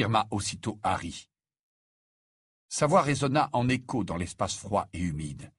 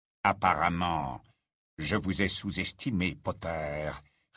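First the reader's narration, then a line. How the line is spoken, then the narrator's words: Low-voiced retort. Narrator (French): répliqua-t-il à voix basse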